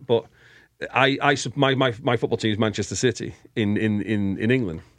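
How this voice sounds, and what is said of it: Northern English accent. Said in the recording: “I was born in Glasgow, but I, I moved uh, to England when I was when I was at school, and so that's why I kind of have a uh, Northern English accent.”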